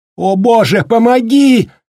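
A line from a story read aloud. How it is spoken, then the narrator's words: Loud cry filling hall. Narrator (Russian): выкрикнула на весь огромный вестибюль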